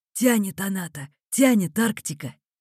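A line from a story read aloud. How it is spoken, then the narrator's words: Wheezing older man. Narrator (Russian): сипел немолодой человек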